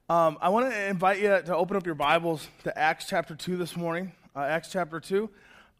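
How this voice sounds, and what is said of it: Hoarse voice from a cold. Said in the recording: “I am struggling through a cold ... my voice is going down”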